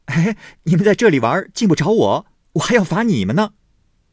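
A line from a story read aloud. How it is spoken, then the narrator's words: Laughing. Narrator (Chinese): 宝玉笑道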